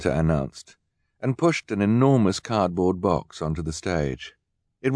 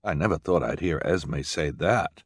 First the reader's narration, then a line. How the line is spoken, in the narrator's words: Jerome murmured